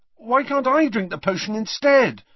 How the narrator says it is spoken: asked Harry desperately

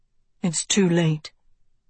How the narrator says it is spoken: Tedros breathed

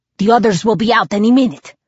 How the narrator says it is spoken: Dimitri grunted

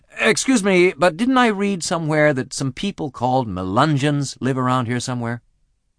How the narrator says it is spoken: I said to him, blurted really

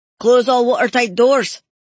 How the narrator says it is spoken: Murdoch shouted

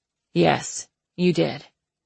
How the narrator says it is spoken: he replied stiffly

